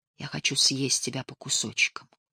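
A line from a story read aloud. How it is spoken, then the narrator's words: Whispered. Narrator (Russian): шептал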